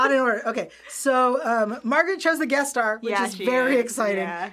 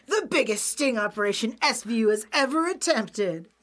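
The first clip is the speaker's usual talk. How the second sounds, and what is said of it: Announcer voice. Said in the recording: “say all the lines in the announcer voice”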